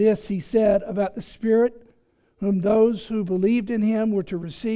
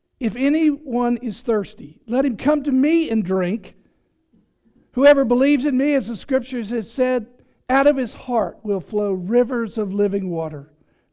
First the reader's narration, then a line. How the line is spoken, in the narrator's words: Jesus stood and cried out